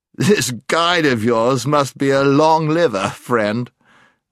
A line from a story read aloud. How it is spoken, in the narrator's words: said the knight with another of his laughs